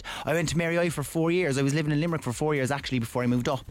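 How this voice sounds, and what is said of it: Cork Irish accent. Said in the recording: “from Cork, obviously. You can tell by the accent.”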